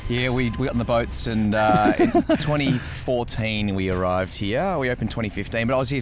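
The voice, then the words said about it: Australian accent. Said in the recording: “another Aussie accent”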